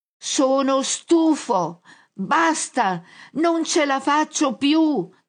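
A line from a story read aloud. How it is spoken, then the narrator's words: Shouting. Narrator (Italian): grida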